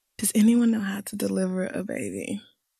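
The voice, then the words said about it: Poorly done put-on accent. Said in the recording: “I can't do the accent ... I'm really bad at accents ... you're trying to do an accent and it's not”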